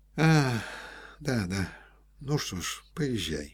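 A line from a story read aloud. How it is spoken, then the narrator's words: Soft. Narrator (Russian): сказал мягко Рябовский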